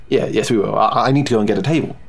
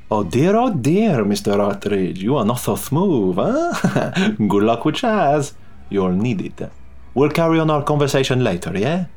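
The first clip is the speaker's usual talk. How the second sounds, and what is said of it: Vague European accent. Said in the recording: “his indefinable European accent had returned”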